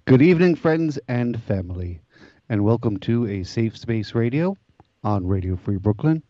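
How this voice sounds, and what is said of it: Deliberately lowered radio voice. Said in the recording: “I'm testing out my low voice. ... trying to get more of a radio voice going on ... I need a lower voice for radio”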